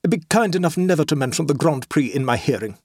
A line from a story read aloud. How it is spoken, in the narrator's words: said Treddleford desperately